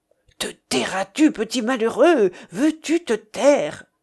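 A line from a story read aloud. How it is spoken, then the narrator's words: Murmured. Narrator (French): murmure-t-elle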